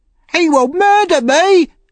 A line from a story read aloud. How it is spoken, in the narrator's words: cried Noah